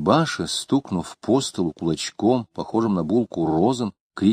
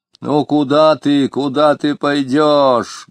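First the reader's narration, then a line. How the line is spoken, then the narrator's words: Deep bass voice. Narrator (Russian): говорила Анфимьевна почему-то басом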